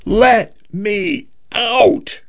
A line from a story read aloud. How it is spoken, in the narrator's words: he screamed